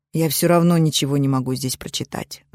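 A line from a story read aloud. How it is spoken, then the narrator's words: Sighing. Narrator (Russian): вздохнул донор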